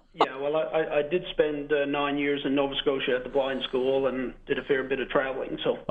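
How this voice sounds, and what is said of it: Slight regional accent. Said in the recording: “I think you have a bit of an accent.”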